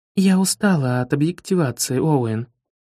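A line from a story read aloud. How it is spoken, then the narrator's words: Feigned bored tone. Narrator (Russian): говорит она, делано скучающим тоном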